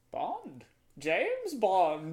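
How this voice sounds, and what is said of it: Yoda-style character voice. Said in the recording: “I'm hearing the Bond, James Bond, but in the Yoda voice. ... my Yoda impression”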